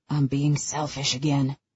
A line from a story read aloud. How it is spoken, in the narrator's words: he mutters